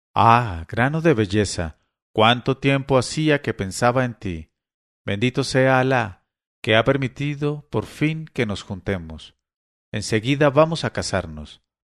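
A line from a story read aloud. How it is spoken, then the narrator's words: Trembling voice. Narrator (Spanish): le dijo con voz trémula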